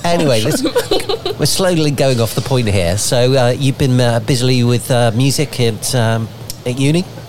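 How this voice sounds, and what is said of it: Bristolian English accent. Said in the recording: “my Bristolian accent coming out there ... Sounds like a farmer accent”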